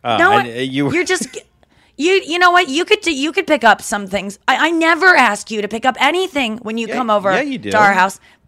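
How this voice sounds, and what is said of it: Imitating his mother's voice. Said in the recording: “You're doing her voice.”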